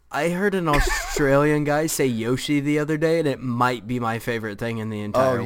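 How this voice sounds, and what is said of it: Slight hillbilly American accent. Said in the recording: “my slightly hillbilly accent”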